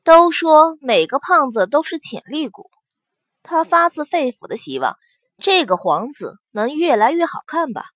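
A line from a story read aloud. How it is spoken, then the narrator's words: Sighing exclamation. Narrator (Chinese): 祸水感叹着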